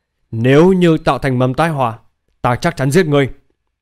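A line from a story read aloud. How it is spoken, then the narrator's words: Worried, angry. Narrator (Vietnamese): Triệu Hân Duyệt lo lắng ... tức giận nói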